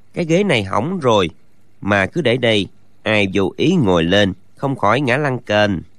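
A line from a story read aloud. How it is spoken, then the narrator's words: Muttering. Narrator (Vietnamese): lẩm bẩm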